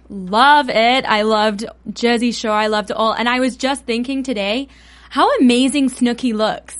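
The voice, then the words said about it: English accent. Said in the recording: “She has the cutest accent ever ... I'm from England.”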